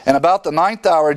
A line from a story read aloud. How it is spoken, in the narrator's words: Jesus cried out